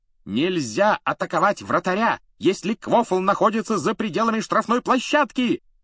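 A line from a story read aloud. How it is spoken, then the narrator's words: Shrill yell, woman. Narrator (Russian): пронзительно завопила она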